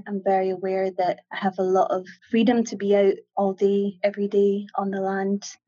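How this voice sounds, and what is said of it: Scottish Ayrshire accent. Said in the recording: “it's very nice to hear your accent... I'm obviously from Scotland... the Scottish Mafia... somebody from Ayrshire”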